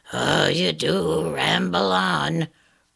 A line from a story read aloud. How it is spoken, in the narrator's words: growled the tinderbox